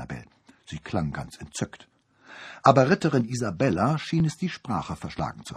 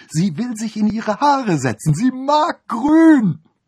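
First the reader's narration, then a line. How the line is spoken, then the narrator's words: Called out. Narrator (German): rief Annabel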